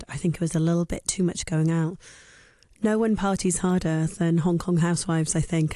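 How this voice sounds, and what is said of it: Husky, slightly hoarse voice. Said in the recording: “I am sounding a little bit husky this morning. I lost my voice”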